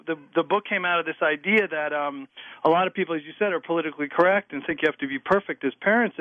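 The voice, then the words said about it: Strong noticeable accent. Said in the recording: “my crazy accent”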